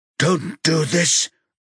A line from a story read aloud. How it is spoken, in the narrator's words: Arne pants